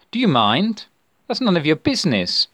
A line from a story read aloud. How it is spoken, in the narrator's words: he snapped